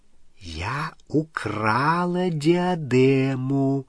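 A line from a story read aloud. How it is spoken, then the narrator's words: Whispered repetition. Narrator (Russian): шепотом повторила Елена Когтевран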